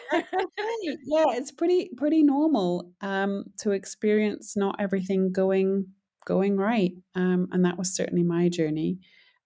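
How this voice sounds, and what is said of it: Non-local, foreign-sounding accent. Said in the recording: “as you can probably tell from my accent, I am not from Montana.”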